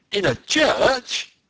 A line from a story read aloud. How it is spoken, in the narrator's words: the Canadian exclaimed